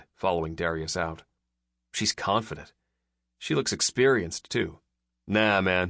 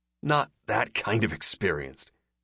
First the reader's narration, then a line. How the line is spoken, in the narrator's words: I snarled